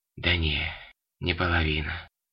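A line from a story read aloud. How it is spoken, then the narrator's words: Pained mutter. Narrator (Russian): пробормотал незнакомец, кривясь от боли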